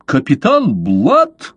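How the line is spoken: Exclamation. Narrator (Russian): воскликнул он

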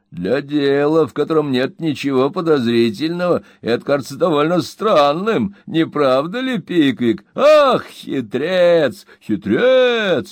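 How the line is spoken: Booming laughter. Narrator (Russian): он захохотал так, что посуда в шкафу зазвенела

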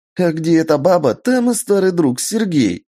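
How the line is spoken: Joyful yelling, unfamiliar voice. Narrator (Russian): радостно завопил незнакомый голос

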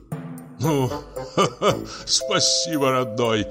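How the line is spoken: Laughing. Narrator (Russian): засмеялся Нилов

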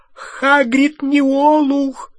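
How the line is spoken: Shrill cry. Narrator (Russian): снова и уже визгливо вскрикнула Гермиона

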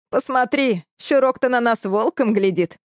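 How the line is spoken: Laughing. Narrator (Russian): рассмеялся парень

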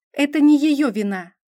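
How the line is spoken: Rather sharp. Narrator (Russian): довольно резко высказалась Вивьен

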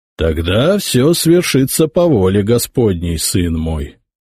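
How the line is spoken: Pope speaking solemnly. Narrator (Russian): торжественно сказал папа

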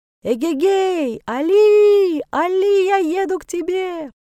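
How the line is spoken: Yelling. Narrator (Russian): завопить

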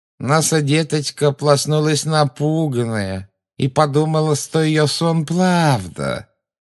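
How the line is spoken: Creepy nasal mocking child-talk. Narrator (Russian): Жутко прогнусавила женщина, издевательски подражая детскому выговору

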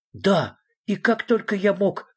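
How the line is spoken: Exclaiming. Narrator (Russian): воскликнул Фредриксон

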